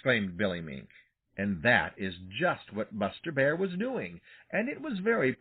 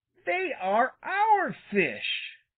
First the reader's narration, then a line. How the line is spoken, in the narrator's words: said Little Joe fiercely